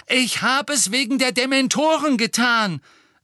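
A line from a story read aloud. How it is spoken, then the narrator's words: Loud, hurried. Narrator (German): sagte er laut, bevor ihm wieder jemand ins Wort fallen konnte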